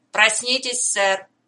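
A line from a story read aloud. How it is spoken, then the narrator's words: Shout. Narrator (Russian): крикнул Тома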